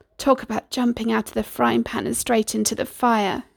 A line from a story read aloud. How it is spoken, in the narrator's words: muttered to himself